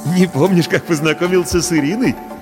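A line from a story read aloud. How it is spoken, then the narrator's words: Forced laugh. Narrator (Russian): делано рассмеялся Паша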